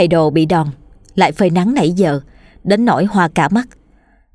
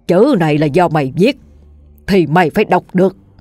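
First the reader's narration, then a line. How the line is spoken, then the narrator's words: Harsh stern voice. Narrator (Vietnamese): ông Phú gằn giọng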